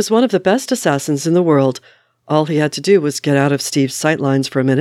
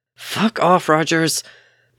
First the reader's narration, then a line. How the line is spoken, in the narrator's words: Bucky growled